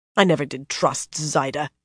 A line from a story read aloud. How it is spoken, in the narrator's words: she grumbled